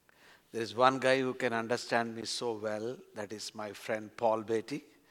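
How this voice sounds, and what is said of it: Strong accented English. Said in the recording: “I hope you understand my accent.”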